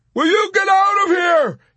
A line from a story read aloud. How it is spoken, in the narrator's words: he yelped beseechingly